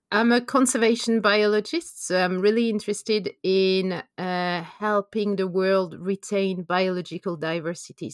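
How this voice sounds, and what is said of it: French accent. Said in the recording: “as you can hear from my accent. I'm from France.”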